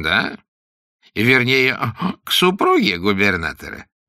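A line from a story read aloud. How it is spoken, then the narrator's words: Meaningful giggle. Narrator (Russian): многозначительно хихикнул Вакер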